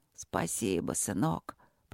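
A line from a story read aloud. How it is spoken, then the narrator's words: Creaky voice. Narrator (Russian): проскрипел кочевник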